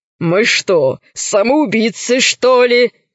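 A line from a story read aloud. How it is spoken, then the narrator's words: Laughing reply. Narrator (Russian): рассмеялся в ответ пират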